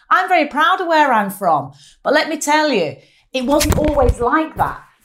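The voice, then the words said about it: Strong Mancunian accent. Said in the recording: “as you can tell from my dulcet tones, quite a strong Mancunian accent”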